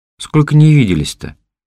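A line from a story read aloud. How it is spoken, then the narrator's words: Loud, affectionate, drunk. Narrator (Russian): Люся говорила громко, но ласково, и я сообразил, что она пьяна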